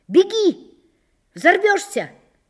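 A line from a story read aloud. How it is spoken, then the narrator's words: Shouting from shed. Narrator (Russian): закричали в сарае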